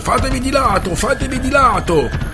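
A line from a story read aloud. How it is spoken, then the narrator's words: Shouting on horseback. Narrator (Italian): Il capitano Adrieszoon … urlando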